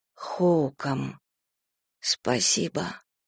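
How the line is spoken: Hoarse. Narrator (Russian): хрипло сказала

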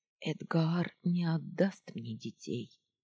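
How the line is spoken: Quiet speech. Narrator (Russian): тихо сказала Сеодара

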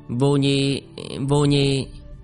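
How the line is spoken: Stammering. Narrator (Vietnamese): Tiểu Lĩnh Vũ ấp úng

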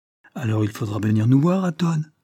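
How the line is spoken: Exclamation. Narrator (French): s'écria-t-elle

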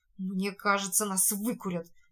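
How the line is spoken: Sullen mutter. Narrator (Russian): пробормотал угрюмо Шоколад, с трудом выбираясь из тины

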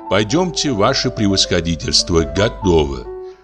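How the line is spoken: Playful tone. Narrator (Russian): Лиза говорит шутливым тоном

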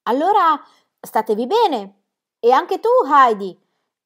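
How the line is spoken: Shouted while moving away. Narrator (Italian): gridò allontanandosi

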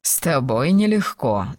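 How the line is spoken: Laughing. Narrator (Russian): засмеялся он

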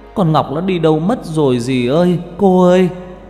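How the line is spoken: Loud wailing shout. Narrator (Vietnamese): bác gào ầm lên

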